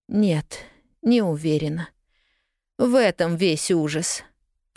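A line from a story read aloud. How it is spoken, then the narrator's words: Moaned. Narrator (Russian): простонала она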